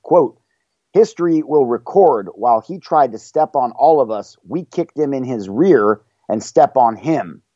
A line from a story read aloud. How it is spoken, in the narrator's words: she yelled, whipping up the crowd